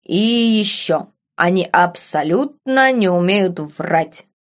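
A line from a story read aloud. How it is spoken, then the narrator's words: Dull, muffled. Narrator (Russian): глухо проговорил мистер Смит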